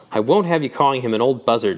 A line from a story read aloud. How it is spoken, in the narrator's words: she said hotly